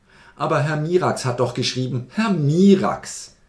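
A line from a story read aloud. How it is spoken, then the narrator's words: Shout with loud laughter. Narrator (German): rief der Philosoph und lachte laut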